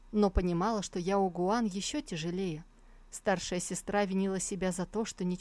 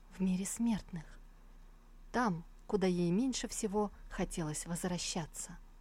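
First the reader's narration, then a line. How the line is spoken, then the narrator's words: Quiet answer. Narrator (Russian): Сусу ответила тихо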